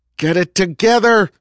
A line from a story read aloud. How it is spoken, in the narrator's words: he shouted